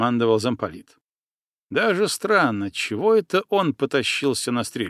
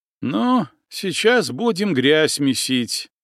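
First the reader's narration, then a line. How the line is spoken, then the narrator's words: Displeased grumbling. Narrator (Russian): недовольно проворчал Пипкин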